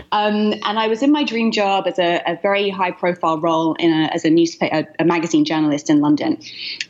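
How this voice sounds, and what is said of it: British accent. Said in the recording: “As you can hear from my accent, I'm from the UK originally”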